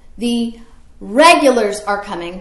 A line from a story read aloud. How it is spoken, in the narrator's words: yelling